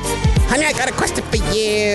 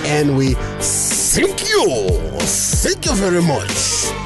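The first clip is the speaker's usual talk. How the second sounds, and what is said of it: Put-on Japanese accent. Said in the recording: “was that your Japanese voice? ... That was my moon impersonation. ... the thank you ... That was pretty bad. ... It was pretty good in an offensive kind of way.”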